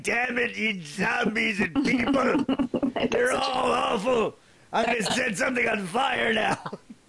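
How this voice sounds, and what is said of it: Impression of Charlton Heston. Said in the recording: “Charlton Heston ... Such a good impression.”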